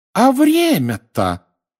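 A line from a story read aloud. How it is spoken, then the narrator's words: Sudden exclamation. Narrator (Russian): неожиданно воскликнула миссис Уизли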